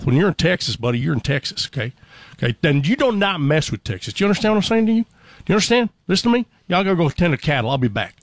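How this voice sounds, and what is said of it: Put-on Texas Southern accent. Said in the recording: “the first Southern accent you'll run into is Texas. Now, Texas accents are not the same as the rest of the South.”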